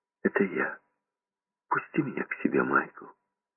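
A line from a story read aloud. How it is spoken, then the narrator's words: Barely audible whisper. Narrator (Russian): Голос чуть слышно прошептал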